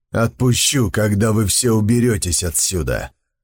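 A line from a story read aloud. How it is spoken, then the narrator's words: Grim barking. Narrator (Russian): мрачно рявкнул Сун Цзиюй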